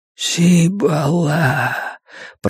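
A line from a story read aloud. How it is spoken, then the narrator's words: Whisper. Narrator (Russian): прошептал мусорный бак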